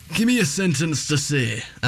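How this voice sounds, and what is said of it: Put-on Yorkshire accent, sounds Irish. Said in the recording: “sounded Irish. Like constipated Irishman ... my impression of a Yorkshire person ... the Yorkshire accent”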